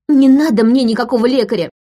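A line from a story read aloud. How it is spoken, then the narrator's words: Shouted. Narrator (Russian): выкрикнула она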